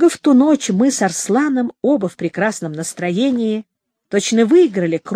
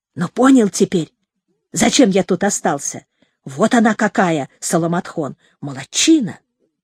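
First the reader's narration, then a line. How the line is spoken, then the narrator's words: Whispered. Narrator (Russian): Арслан шепнул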